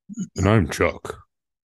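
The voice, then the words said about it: Put-on radio announcer voice. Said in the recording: “Is that your best radio voice? ... Trying to change it up. ... So I'm just trying some different voices.”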